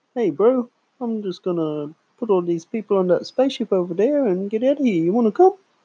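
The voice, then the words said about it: Impression of the movie character Korg. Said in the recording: “You do a way better impression than me.”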